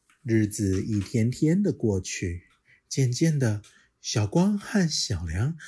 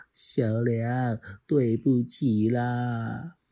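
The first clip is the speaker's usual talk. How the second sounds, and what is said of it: Quiet, soft-spoken line. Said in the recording (Chinese): “小光很小声的说”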